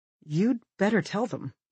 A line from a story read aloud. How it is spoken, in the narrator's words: Olivia says anxiously